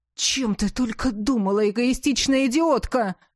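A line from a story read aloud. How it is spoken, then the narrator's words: Roaring. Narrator (Russian): взревел он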